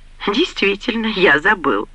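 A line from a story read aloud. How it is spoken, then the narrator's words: Laughing. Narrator (Russian): рассмеялся Джейрд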